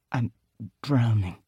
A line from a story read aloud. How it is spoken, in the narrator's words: Robin mumbled